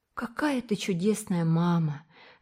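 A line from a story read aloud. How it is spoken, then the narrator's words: Sighed. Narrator (Russian): вздохнула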